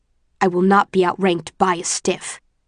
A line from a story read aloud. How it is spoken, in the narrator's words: he hisses, his face so close to mine